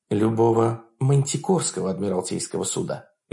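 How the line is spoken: Soft, holding back tears. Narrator (Russian): мягко поправила Хонор, пытаясь скрыть комок в горле

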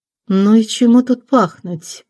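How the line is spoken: Said through teeth. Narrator (Russian): процедила Реневьева

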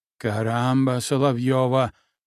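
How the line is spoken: Muttering. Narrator (Russian): бормотал

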